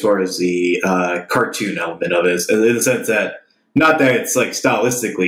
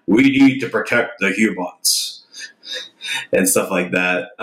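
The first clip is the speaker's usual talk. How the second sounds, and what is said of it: Imitates a Transformers movie character voice. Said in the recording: “pretty good impression.”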